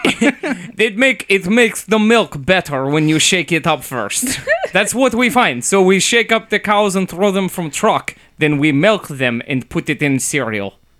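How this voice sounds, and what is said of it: Put-on Russian accent. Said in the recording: “I was mostly just listening to the way you were saying stuff to see if it was actually Russia ... Halfway through, I like couldn't tell anymore ... it's my Russian accent ... it's pretty good. I stuck with it. I didn't slip”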